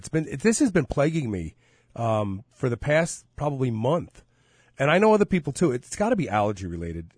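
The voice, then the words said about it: Stuffy, congested voice. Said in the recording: “You sound a little stuffy.”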